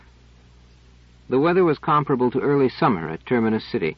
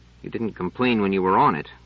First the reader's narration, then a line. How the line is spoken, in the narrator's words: growled Trevise